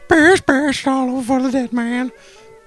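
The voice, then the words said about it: Poor Paul Bearer impression. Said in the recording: “my Paul Bearer impression ... The impression is so poor that we can't even really tell what you're doing.”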